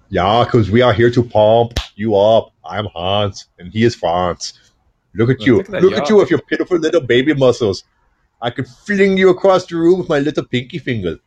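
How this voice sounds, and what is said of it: Exaggerated German-Austrian accent character voice. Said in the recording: “I can't do an Arnold either... What I end up doing is Hans in France from Saturday Night Live... basically a German accent and an Austrian accent”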